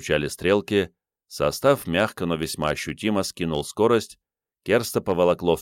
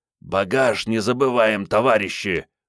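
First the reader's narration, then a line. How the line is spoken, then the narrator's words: Hoarse wheeze. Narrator (Russian): прохрипел Игорь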